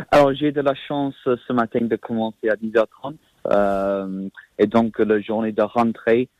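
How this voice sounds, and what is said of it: British accent speaking French. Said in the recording (French): “vous avez un accent britannique”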